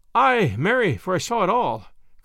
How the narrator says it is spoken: cried she, panting as the hare pants when it has escaped the hounds

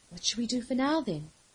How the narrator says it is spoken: List asked, her voice quiet but calm

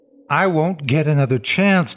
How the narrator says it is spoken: Toby said

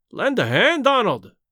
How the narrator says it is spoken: he cried

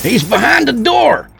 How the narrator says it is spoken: Rudy yelled

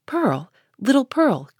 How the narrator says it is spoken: cried he, after a moment's pause, then suppressing his voice

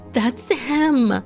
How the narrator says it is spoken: they screamed

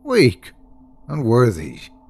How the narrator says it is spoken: she snorted

